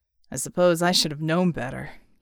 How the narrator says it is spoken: he muttered

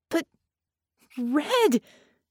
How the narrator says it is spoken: Vicky protested in a wail

